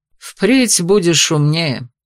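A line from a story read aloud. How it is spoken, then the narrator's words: Snorting. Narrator (Russian): фыркнул герцог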